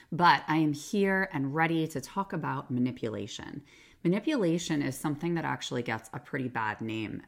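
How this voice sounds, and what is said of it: Sick, strained-sounding voice. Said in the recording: “Please excuse my voice because I am recovering from a special virus”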